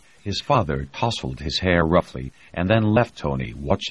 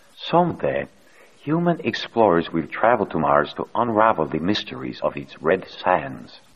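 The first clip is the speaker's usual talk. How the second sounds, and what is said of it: Soft beguiling Latin accent. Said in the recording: “saying in a softly beguiling Latin accent”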